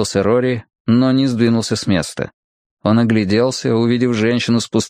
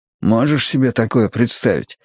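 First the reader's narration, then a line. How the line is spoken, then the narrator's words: Quiet question. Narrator (Russian): тихо спросил он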